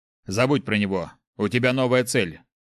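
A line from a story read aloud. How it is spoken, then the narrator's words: Abrupt. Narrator (Russian): резко сменил тему отец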